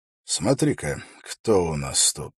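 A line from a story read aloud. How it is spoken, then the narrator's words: Quiet. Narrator (Russian): тихо сказал Холт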